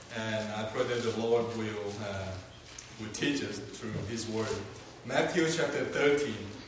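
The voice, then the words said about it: Non-local accent, sounds different. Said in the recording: “I'm not from Arkansas, so I sound a little different. And so I hope you will be patient with my accent”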